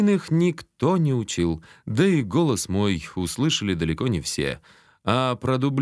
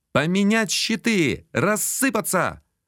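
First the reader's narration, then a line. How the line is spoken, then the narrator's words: Shouted out. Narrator (Russian): выкрикнул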